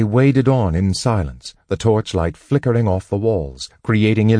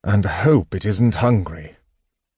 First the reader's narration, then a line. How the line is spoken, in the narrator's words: Tanis muttered